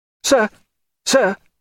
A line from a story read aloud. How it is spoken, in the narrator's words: cried Babington on the veranda